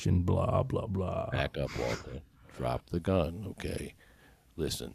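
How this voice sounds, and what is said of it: Impression of a TV crime-drama character. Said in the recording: “Do you think I sound like Mike from fucking uh, Breaking Bad?”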